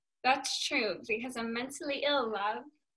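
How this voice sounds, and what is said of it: Put-on British accent. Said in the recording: “adding out my British accent.”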